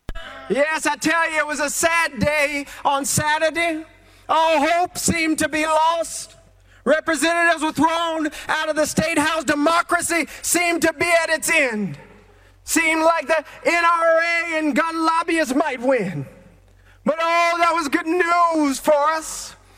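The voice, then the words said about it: MLK-style preaching impression. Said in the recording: “doing his full-on MLK impersonation”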